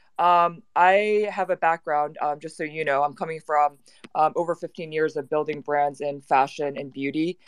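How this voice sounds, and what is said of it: American accent. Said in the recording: “I'm unfortunately have an American accent”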